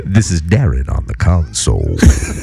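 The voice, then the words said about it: Deep smooth radio announcer voice. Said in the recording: “He's trying to get that Soul Train voice, that Don Cornelius ... I've been working on my radio voice ... Really good ... Some Barry White shit right there.”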